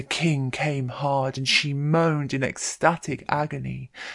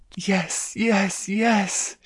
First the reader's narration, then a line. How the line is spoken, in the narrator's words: she moaned